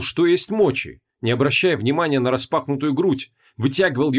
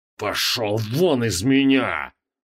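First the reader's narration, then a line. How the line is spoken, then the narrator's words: Strained through clenched teeth. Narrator (Russian): процедил Креол сквозь стиснутые челюсти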